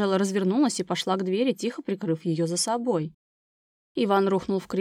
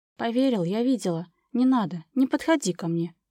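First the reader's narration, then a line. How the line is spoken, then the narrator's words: Muffled command. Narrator (Russian): Глухо приказала она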